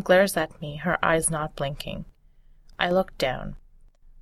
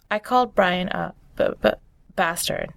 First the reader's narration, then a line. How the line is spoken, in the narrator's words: slowly stammer